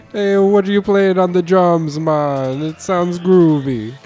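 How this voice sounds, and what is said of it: Put-on Jamaican accent. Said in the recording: “How about a Jamaican?”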